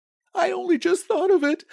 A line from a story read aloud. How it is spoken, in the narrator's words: said hysterically